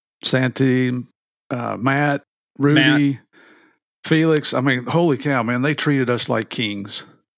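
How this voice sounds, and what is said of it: Nearly lost, strained voice. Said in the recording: “my voice sounds a little different, because I've just about lost it.”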